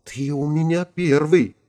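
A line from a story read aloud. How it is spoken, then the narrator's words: Barely audible embarrassed whisper. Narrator (Russian): Чувствуя, что краснеет до корней волос, Ирина еле слышно прошептала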